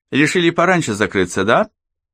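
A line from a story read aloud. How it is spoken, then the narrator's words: Chuckle. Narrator (Russian): По хохотнул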